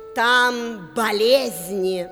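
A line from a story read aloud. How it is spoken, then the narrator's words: Plain. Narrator (Russian): ответила Ночь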